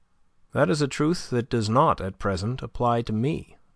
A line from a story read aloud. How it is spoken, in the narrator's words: said André Louis